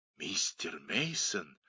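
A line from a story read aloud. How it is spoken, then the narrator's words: Frightened whisper. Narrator (Russian): испуганным шепотом повторила она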